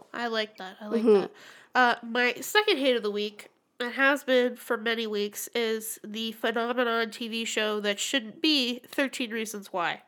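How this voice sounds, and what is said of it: Congested, slightly nasal voice. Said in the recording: “my shitey nose ... I sound so awful ... a little bit nasally”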